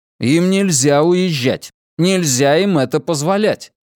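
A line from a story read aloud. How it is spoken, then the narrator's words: Sudden loud speech. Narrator (Russian): произнес внезапно и громко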